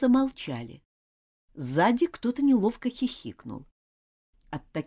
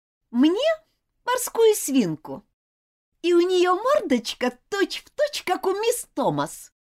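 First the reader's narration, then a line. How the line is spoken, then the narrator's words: Deliberately loud reply. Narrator (Russian): нарочито громко ответила Элизабет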